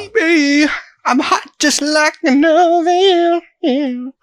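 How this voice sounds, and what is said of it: Silly put-on singing voice. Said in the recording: “doing my silly singing voice. I'm not actually going to try to do my real voice”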